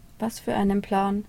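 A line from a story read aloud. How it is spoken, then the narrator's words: Feigned indifference, sighing. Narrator (German): fragte der Priester scheinbar gleichgültig und mit einem Seufzer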